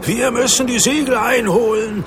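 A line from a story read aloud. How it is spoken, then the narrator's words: Shouted. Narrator (German): schrie Andreas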